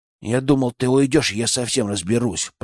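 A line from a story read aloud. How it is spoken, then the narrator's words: Sudden grumble. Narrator (Russian): пробурчал он вдруг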